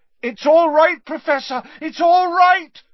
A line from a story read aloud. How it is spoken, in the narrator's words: said Harry loudly